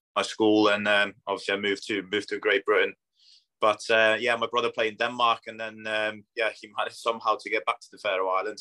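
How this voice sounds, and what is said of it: Mixed Polish, Scandinavian, Northwest English accent. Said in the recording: “you can pick up a bit of Polish. I think there's a bit of Scandinavian in there and I also think there's a bit of Northwest in there”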